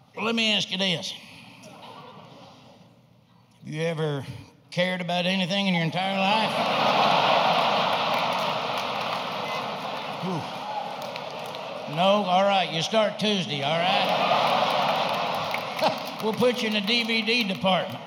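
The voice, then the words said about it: Impression of apathetic Walmart hiring manager. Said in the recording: “my impression of the hiring practices at Walmart”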